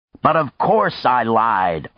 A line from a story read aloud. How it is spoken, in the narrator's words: Arkady shouted, a big upside-down grin